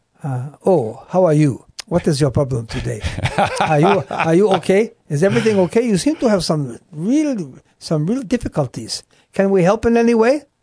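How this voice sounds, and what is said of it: Put-on foreign accent. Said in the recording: “Tell us the accent. Let's hear the accent. How did the soldiers sound?”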